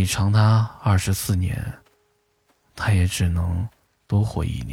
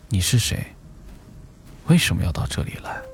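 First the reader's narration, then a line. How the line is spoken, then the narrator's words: Mysterious interrogating voice. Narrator (Chinese): 冥冥中，有一个声音在审问他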